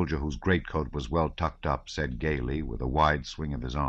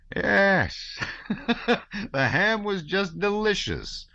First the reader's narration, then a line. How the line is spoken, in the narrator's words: answered another with a loud laugh